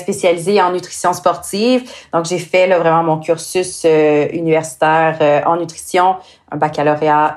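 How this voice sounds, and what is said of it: Québécois French accent. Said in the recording (French): “des gens avec un petit accent québécois ... comme vous l'avez entendu euh, avec mon accent, euh, moi je viens du Québec”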